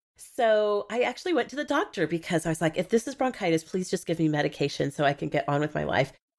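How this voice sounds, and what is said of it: Sick, congested-sounding voice. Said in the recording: “You can hear that ... I sound terrible. I actually sound worse than I feel. I got a head cold last week”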